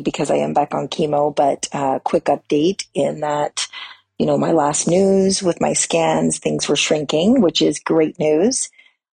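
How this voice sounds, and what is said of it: Hoarse, raspy voice. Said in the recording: “my voice is back to the horsey, raspy”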